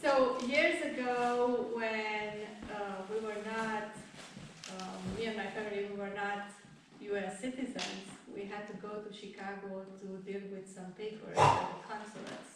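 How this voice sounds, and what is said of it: Non-native English accent. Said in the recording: “this is the hardest part for me to talk... my accent.”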